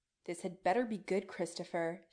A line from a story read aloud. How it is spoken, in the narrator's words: she snaps, but Chris can hear the good humor under her caustic tone